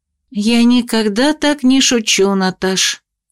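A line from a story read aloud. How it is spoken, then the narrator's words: Glum. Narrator (Russian): уныло улыбнулась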